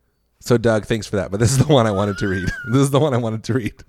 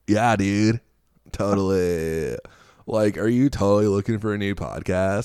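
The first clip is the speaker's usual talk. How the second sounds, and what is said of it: Put-on Southern California surfer accent. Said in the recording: “Southern California. ... Bro, this is my Southern accent.”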